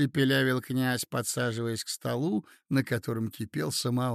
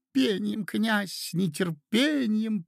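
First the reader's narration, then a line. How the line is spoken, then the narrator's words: Squeaky voices. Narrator (Russian): пропищали другие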